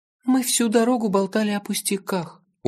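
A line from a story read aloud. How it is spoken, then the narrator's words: Dejected mumble. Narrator (Russian): упавшим голосом пробормотала она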